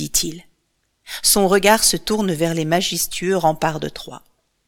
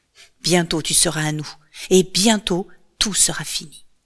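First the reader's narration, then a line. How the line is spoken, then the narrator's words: Murmured. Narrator (French): murmure-t-il encore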